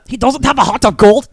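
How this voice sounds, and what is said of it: Poor attempt at Gru's accent. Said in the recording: “That's not a good accent. That's not a good ... Gru. ... I was trying to be Gru.”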